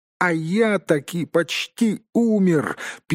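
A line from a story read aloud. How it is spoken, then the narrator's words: Squeaking. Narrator (Russian): пискнул Бильбо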